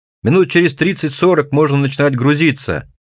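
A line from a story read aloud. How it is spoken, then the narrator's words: Yelling right into ear. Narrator (Russian): Вопит и брызгается он прямо мне в ухо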